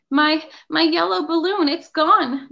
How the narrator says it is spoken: Joey sobbed

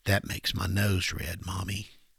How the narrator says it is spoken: As a child, at a particularly moving point of a story or a movie, he would whisper

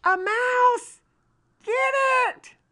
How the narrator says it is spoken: John yells

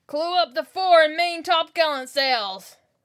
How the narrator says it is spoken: shouted the captain

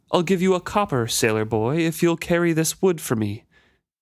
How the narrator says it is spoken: In a haughty tone, she offered

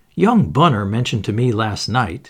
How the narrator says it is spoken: he said

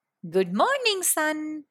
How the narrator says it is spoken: called out

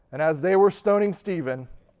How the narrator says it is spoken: he called out

